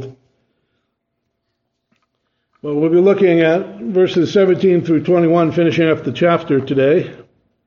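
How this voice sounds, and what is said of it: Voice weakened by a cold. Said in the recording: “apologize for my voice. It may come and go a little bit because of a cold.”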